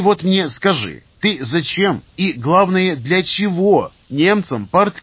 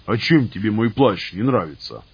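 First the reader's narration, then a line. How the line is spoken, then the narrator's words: Grumbling. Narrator (Russian): Пробурчал леший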